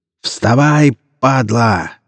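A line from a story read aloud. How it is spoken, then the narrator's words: Yelling. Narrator (Russian): заорал Павел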